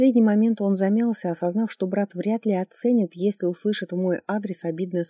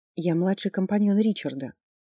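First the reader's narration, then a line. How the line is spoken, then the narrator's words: Quiet. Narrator (Russian): негромко проговорила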